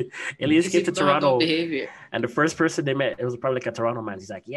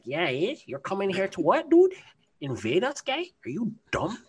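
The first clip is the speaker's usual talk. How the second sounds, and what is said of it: Toronto man accent. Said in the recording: “your Toronto man, the Toronto man accent is legit still”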